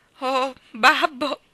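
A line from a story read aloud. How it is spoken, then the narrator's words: Sob. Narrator (Italian): singhiozzò Maggie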